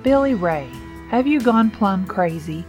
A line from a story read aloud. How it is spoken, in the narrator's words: Lucky asked, practically laughing at him